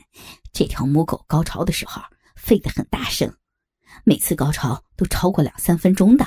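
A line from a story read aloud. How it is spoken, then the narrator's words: Laughing. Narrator (Chinese): 他笑着说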